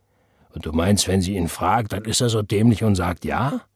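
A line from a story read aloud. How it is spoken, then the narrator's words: Heartfelt sigh. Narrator (German): Sie seufzte erneut, diesmal von Herzen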